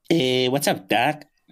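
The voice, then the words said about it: Cartoon rabbit character voice. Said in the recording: “we'll start with Bugs Bunny ... Ooh, those both pretty good. Both pretty good.”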